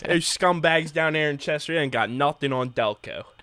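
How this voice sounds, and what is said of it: Good put-on regional accent. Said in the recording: “That's such a good accent. ... That's really good. Really”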